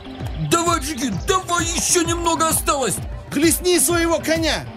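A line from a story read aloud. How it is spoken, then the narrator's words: Crowd shouting. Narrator (Russian): толпа закричала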